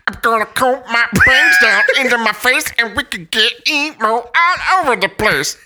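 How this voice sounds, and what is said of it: Muppet-like character voice. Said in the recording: “sound like a Muppet”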